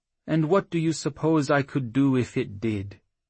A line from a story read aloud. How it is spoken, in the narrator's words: Crafty asked, a hint of sad amusement in his strange accent